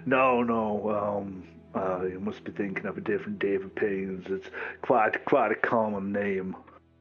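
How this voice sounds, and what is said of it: English accent. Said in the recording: “You got an English accent.”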